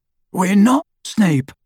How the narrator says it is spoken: croaked Harry

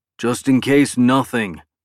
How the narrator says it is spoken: Clark grunted, glaring angrily at Chip for the first time

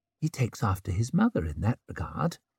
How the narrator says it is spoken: murmured Savine

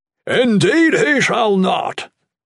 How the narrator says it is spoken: Bernard bellowed, in indignation

